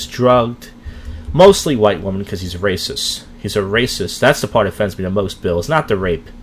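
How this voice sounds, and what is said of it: Usual voice. Nothing is said of it.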